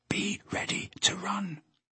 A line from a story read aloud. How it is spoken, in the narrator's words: he whispered to Peter